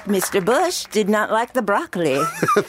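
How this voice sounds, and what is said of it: Put-on accent, done well. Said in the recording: “What accent was that? ... It was very good, though.”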